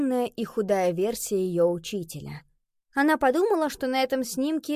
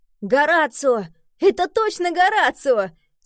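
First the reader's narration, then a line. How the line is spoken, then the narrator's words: Laughing exclamation. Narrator (Russian): Смеясь, воскликнул он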